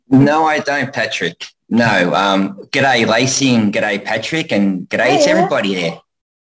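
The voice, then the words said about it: Australian accent. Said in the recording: “You don't have an upper Midwest accent either... from Australia”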